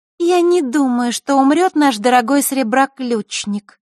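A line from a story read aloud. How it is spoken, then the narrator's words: Thin voice. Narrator (Russian): тонким голосом произнесла Маришка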